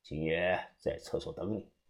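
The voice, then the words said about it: Quiet, hushed speech. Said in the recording (Chinese): “小声的对我说道”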